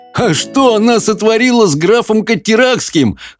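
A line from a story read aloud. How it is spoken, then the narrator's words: Roaring laughter. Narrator (Russian): хохотал Хоул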